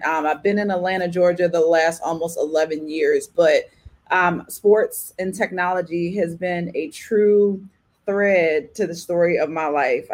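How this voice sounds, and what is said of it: Thick Baltimore accent. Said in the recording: “I'm originally born and raised from Baltimore, Maryland. If you can't tell by my thick accent”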